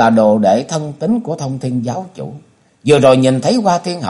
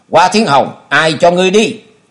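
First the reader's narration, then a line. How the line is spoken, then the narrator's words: Angry shout. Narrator (Vietnamese): Thanh Liên đạo đồng tức giận thét lớn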